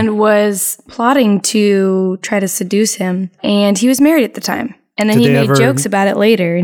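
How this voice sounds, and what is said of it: Usual voice. Nothing is said of it.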